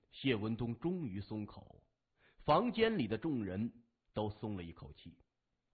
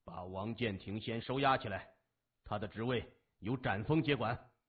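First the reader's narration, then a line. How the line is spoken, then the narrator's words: Flat, indifferent. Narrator (Chinese): 他淡淡的说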